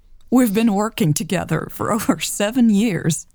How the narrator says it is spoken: Karen chuckled

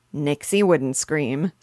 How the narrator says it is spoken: said Papa, laughing

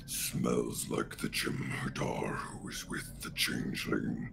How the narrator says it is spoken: Slabaz growls and he says

